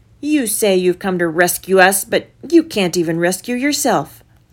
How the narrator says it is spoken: the people shouted

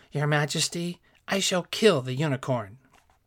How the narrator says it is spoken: With sparkling eyes, he turned to the king, exclaiming

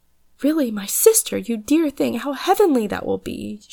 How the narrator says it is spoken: she cried

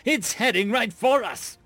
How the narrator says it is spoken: other panic-laden shouts began to echo throughout the small station

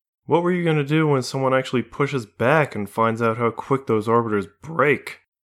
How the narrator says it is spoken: Melody scoffed

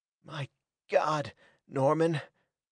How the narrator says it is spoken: panted Hackett, helpless

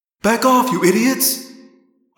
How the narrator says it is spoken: I screamed

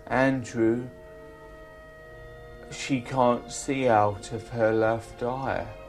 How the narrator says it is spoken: the urologist phoned me and said

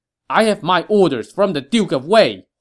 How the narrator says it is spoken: Hua Xin barked

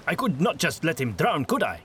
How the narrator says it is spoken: said harshly

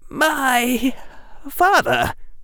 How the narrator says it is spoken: Harry said, his voice trembling

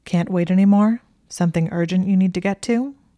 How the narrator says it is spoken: he asked in a flat voice

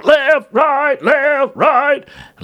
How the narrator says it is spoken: shout

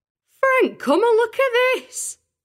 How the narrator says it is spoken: his wife called again, in an almost hysterical tone

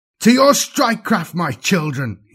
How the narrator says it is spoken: howled

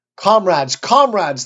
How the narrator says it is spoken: they shouted

